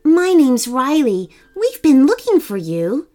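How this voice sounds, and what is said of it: Gentle soft voice. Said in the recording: “in a gentle voice”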